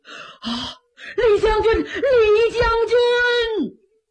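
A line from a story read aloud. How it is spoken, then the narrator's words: Sobbing bitterly. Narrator (Chinese): 赵匡胤痛哭失声啊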